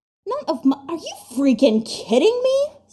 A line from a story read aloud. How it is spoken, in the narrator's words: Styles yelps incredulously